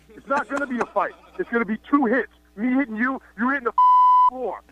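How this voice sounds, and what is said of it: New York accent. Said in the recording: “you go off on this tangent about my accent? ... I heard about you New Yorkers”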